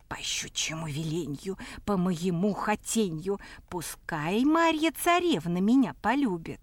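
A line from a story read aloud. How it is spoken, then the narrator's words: Mutter under breath. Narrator (Russian): под нос себе бормочет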